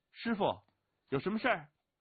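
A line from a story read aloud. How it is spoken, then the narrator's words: Snorting, calling out. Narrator (Chinese): 对着少年挥挥叫着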